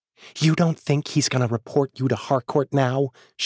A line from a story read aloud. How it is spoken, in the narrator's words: She hisses, her eyes flashing daggers at me